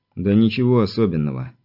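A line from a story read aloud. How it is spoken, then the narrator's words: Displeased sigh. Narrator (Russian): недовольно вздохнул Виктор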